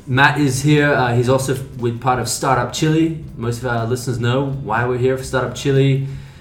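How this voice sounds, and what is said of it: Australian accent. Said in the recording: “the very first Australian, except for myself ... my Australian accent”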